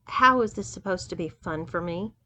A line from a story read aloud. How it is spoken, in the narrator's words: asked Doug